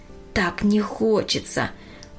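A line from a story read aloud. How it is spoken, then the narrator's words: Sighing. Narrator (Russian): вздохнула она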